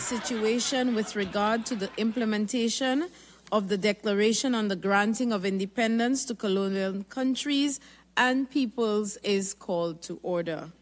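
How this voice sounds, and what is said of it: European accent. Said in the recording (Spanish): “¿Qué es ese acento europeo? ... Y ese acento de europeo”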